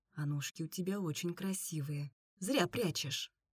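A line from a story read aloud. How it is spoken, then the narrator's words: Whisper in ear. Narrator (Russian): прошептал ей на ушко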